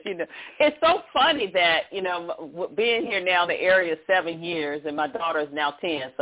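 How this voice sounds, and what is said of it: Country accent. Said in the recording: “I'm a country girl... I don't try to disguise my accent.”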